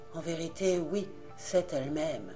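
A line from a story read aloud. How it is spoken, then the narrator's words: Low-voiced reply. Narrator (French): répondirent à voix basse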